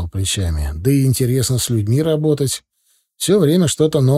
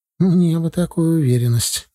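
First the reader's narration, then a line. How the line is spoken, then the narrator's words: Sighing. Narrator (Russian): Галия вздохнула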